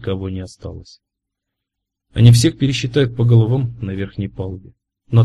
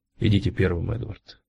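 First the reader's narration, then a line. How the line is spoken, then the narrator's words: Quiet. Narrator (Russian): тихо сказал Кразье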